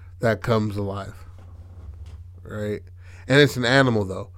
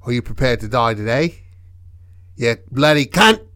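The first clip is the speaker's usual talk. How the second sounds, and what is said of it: Put-on Australian accent. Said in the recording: “Has an Australian accent. Has an Australian accent.”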